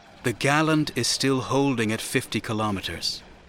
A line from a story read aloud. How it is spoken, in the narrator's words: Shatak said in a conciliatory tone